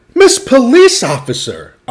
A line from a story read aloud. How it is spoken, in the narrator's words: Amu exclaimed